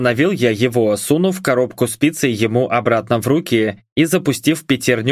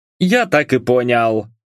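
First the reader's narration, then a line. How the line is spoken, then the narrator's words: Scoffing grunt. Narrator (Russian): хмыкнул доставщик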